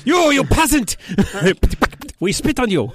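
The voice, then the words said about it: Bad put-on French accent. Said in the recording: “That's my worst French accent.”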